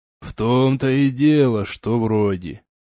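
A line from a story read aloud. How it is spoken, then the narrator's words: Grumbling. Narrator (Russian): проворчал Орегон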